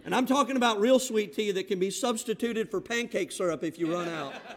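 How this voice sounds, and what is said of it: Southern American accent. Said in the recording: “I came in with my southern accent from the panhandle of Florida”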